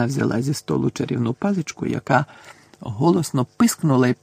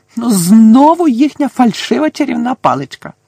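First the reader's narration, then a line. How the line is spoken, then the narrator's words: Angry female shout. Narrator (Ukrainian): закричала вона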